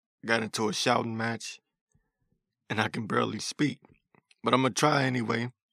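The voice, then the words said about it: Hoarse, strained voice. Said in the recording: “My voice is still hoarse.”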